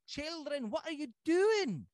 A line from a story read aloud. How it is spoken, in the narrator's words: cried now really alarmed